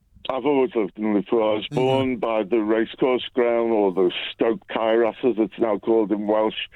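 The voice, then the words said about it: Scouse accent. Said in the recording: “I've got a Scouse accent”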